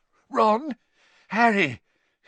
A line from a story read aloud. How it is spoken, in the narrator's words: His voice sounded shaky